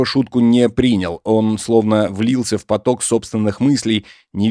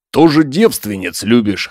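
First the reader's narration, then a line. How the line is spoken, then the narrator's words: Scoffing snort. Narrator (Russian): хмыкнул Егор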